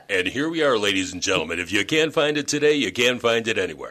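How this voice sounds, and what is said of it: Deep raspy radio announcer voice. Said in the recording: “this, radio voice ... I love the deep, raspy, awesome voice. ... you just have that pillow talk voice.”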